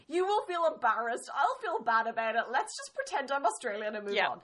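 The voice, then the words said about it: Irish accent. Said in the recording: “your accent is so cute. I love your accent. Are you from Ireland? And I'm like, yes.”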